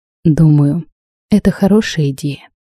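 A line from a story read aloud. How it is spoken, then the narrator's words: Calm. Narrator (Russian): спокойно произнес он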